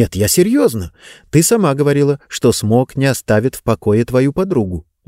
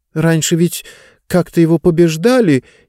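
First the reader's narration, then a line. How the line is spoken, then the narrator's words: Uncertain reply. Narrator (Russian): неуверенно ответила Диба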